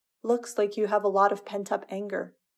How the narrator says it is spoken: says Potter

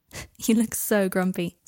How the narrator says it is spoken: said Harry, laughing

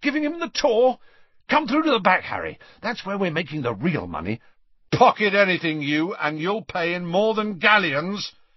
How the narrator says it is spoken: he added warningly

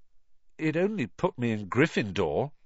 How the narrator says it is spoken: said Harry in a defeated voice

